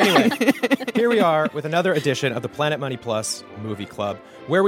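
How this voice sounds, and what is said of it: Usual voice. Nothing is said of it.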